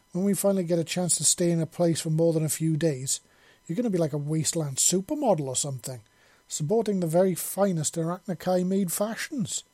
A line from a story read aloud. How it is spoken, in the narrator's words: Shepherd exclaimed